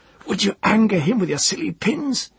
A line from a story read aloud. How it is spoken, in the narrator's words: he gasped